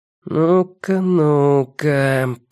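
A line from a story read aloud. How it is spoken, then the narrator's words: Drawn-out. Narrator (Russian): протянул программист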